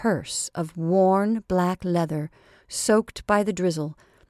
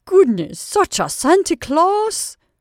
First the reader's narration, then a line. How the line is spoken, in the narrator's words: she exclaimed with a final sigh of pleasure